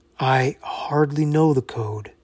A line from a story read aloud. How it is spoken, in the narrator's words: said softly